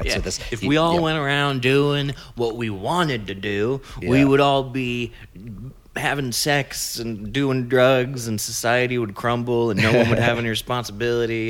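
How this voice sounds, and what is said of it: Preacher-like sermonizing voice. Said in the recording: “that's a good preacher voice, because that's what the preachers say”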